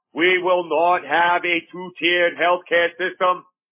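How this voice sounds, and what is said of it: Mock politician speech voice. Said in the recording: “I'm talking like a Kennedy there, I guess, but that's my politician voice.”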